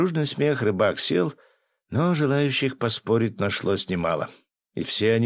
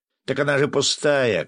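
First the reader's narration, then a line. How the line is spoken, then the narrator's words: Shout from nearby table. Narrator (Russian): крикнул кто-то из-за соседнего столика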